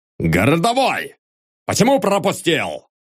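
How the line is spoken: Irritated shout. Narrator (Russian): крикнул он раздраженно

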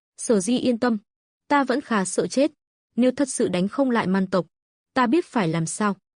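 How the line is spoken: Smiling reassurance. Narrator (Vietnamese): Lộ Thần mỉm cười

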